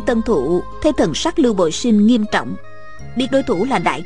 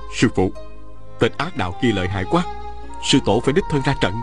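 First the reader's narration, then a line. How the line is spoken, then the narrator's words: Soft. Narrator (Vietnamese): Lưu Bội Sinh khẽ nói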